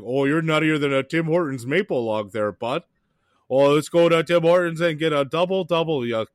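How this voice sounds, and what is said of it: Exaggerated put-on Canadian accent, cartoonish. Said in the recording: “he kind of sounds like if the Duke was trying to do a Canadian accent ... Like you were doing Yogi Bear a little bit”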